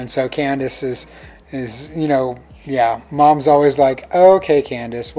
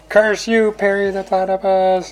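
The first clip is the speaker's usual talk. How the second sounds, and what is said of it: Doofenshmirtz impression, admittedly not great. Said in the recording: “what's the line that he always says at the end after Perry foils him? ... I can't do the voice very good”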